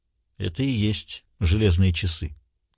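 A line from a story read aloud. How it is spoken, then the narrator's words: Quiet. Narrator (Russian): тихо сказал Пендергаст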